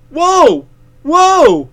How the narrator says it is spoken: Hal cried

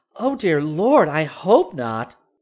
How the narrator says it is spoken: Dorothy exclaimed

